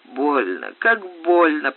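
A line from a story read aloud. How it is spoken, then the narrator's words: Pained rasp. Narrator (Russian): прохрипела она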